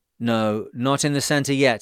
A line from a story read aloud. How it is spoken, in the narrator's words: I answered